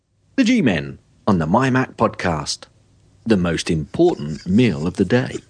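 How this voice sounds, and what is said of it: Very serious, deadpan delivery. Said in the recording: “I said it so seriously”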